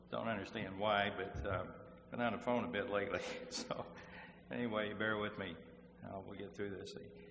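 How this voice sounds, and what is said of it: Hoarse, strained, fading voice. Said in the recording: “losing my voice”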